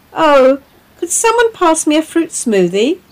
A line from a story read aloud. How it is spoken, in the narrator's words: called out Diva